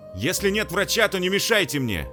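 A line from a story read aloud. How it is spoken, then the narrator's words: Loud, to a crowd. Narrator (Russian): Добавил он громко в толпу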